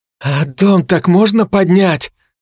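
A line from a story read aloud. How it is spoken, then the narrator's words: Awed breath. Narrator (Russian): благоговейно выдохнул Хинниган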